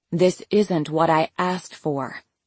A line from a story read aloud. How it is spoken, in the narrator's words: the other woman said quietly into the phone, her voice got even lower to whisper